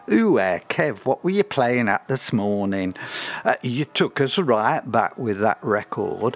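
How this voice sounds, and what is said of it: Put-on accent while quoting listeners. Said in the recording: “Why am I speaking with that accent?”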